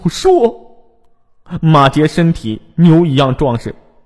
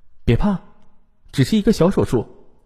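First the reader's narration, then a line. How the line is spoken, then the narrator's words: Gentle. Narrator (Chinese): 翟美玲她温柔的说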